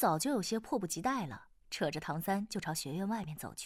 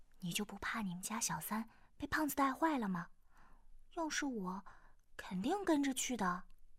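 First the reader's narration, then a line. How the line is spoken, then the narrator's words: Low whisper. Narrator (Chinese): 耳边压低声音说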